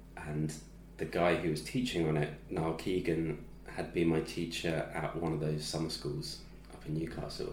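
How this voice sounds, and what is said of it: English accent. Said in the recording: “A guy with an English accent”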